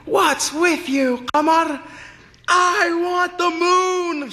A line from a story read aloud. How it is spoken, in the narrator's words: she yelled